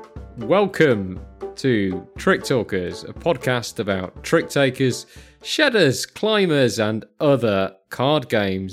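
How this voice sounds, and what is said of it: British accent. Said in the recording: “the one with a British accent”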